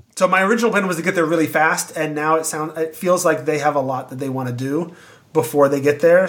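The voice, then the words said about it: Tired, weakening voice. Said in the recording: “I've talked a lot, and my voice is slowly getting weaker”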